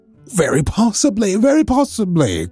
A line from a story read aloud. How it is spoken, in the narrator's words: cried Mr